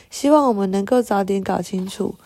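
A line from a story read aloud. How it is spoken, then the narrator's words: Smiling. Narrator (Chinese): 库恩布兰特太太微笑着说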